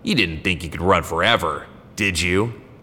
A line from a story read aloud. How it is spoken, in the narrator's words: he sneered